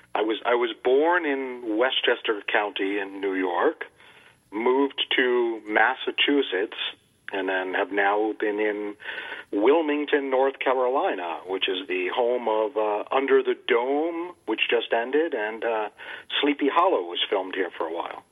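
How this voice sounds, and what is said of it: Northeastern US accent. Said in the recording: “your accent sounds more like, I don't know, Connecticut or New York”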